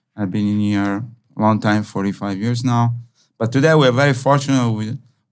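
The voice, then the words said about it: Italian accent. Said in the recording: “I'm from Italy. Maybe you recognize my accent a little bit.”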